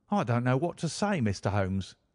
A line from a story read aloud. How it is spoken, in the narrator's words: he blurted out at last with a very red face